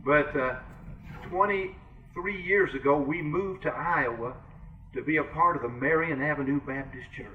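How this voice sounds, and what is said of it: Kentucky Southern US accent. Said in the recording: “I'm a Kentuckian. You can tell I've got a Kentucky accent.”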